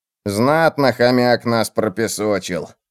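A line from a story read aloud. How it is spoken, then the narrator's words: Muffled grumbling. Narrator (Russian): барахтаясь под одеялом, ворчал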